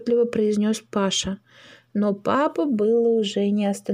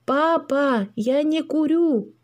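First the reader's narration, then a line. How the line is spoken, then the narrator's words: Shouting with all strength. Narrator (Russian): что из силы крикнул Паша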